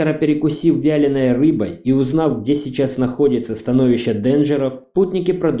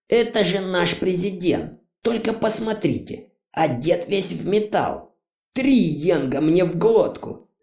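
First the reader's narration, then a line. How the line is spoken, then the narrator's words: Loud guffaw. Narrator (Russian): захохотал Крайд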